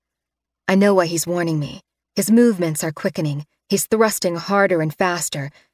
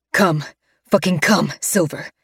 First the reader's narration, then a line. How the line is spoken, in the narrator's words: he snarls into my ear